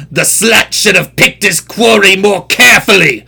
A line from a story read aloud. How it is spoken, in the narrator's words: roared the victor in a mocking baritone growl